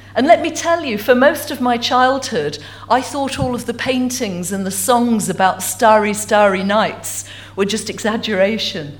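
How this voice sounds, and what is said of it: Essex English accent. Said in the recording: “as you can tell from my accent, I'm not originally from Stornoway... I have to own up to being an Essex girl... Essex by birth and by upbringing”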